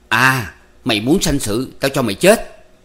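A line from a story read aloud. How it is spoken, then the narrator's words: Angry roar. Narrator (Vietnamese): anh ta gầm lên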